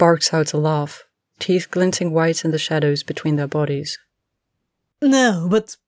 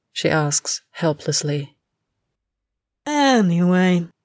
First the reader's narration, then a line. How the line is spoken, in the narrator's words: he drawls